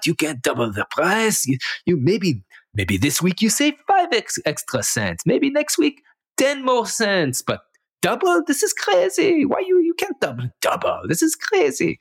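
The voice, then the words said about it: Put-on Israeli accent. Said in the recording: “Good Israeli accent”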